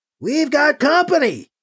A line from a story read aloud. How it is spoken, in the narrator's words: someone shouts